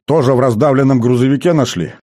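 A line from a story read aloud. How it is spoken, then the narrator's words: Skeptical grunt. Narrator (Russian): хмыкнул комбриг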